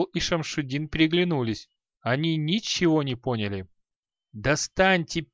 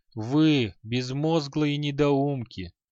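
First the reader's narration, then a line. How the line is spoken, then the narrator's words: Hollow, empty voice. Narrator (Russian): пустым голосом произнес халай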